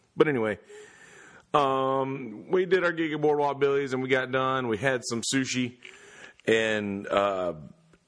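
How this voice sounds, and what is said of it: Very hoarse voice. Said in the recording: “I'm hoarse AF. My voice is gone, man.”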